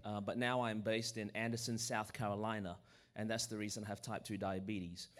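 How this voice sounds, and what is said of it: Australian accent. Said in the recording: “I was born in Australia. That's the reason my voice is this way.”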